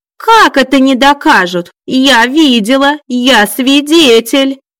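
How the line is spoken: Joyful yelling. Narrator (Russian): Радостно завопила Мила Ивановна

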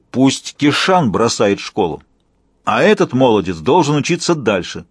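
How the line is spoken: Deep breath, then roaring. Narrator (Russian): Он глубоко вздохнул, проревел

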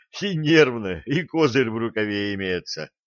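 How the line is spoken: Just finished laughing. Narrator (Russian): генерал, отсмеявшись

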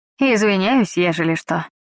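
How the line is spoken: Snorting. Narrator (Russian): хмыкнул он

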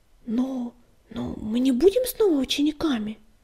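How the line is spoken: Faltering babble. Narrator (Russian): пролепетал Крутобок

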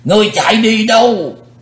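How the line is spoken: Loud roar. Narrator (Vietnamese): lão thủ tịch hộ pháp, hắn gầm to lên

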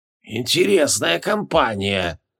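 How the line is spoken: Old woman's creaky voice. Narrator (Russian): проскрипела старуха

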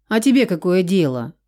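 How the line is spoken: Rude reply. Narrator (Russian): неожиданно грубо ответила Нурия

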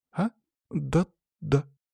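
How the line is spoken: Uncertain young girl. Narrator (Russian): неуверенно девочка

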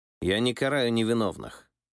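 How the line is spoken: Cold continuation. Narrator (Russian): холодно продолжил Михаил II

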